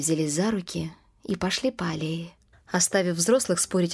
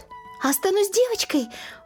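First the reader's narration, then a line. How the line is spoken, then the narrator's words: Girl exclaiming. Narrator (Russian): воскликнула девочка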